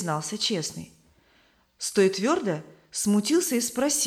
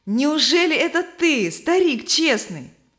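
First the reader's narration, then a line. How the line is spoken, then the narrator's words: Joyful. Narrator (Russian): Стой Твердо радостно обратился к нему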